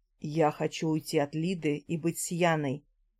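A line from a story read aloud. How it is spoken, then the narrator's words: Quiet. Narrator (Russian): тихо сказал Алексей Денисович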